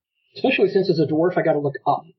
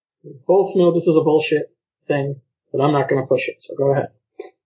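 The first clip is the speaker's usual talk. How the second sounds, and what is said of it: Flat deadpan delivery. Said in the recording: “in the most deadpan voice”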